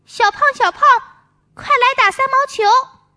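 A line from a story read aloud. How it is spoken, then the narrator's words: Children calling out. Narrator (Chinese): 几个小朋友喊他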